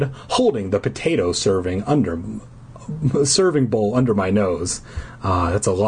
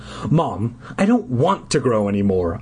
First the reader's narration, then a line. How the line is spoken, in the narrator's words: I exclaimed